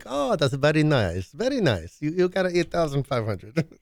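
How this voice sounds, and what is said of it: Put-on Russian accent. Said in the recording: “If that's a Russian accent, I don't know.”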